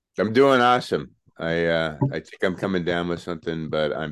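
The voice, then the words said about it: Low gravelly voice from illness. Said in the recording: “It's a good podcast voice ... lower baritone register. It's a little bit of that gravelly ... Plan on being sick a little more often. It sounds good on you.”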